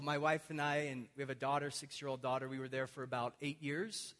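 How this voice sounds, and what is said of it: American accent. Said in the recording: “I have this unfortunately vulgar American accent.”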